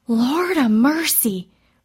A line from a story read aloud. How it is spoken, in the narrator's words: Ruby May said in a loud whisper